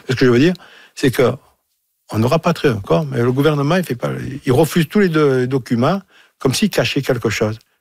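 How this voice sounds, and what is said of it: Marseille French accent. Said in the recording (French): “Avec mon accent, je suis à mon de Marseille”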